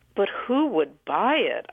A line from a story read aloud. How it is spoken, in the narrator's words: I said, playing devil's advocate, my tone hinting that the adults were out of touch